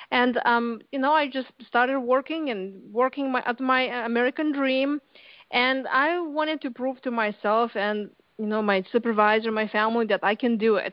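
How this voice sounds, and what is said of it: Lithuanian accent. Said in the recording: “As you can tell with my, you know, from my accent, I came here to U.S. 20 years ago from Lithuania.”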